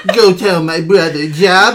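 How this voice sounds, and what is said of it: Imitated cartoon character voice. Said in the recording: “That voice just sounds overly, like, sexual ... sound like Truman Capote ... Can you do the voice for Zero?”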